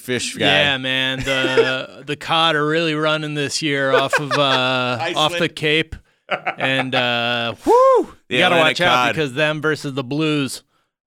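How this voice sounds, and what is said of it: Put-on Midwestern American accent. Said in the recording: “I have a Midwestern accent when I'm talking about fish off the East Coast”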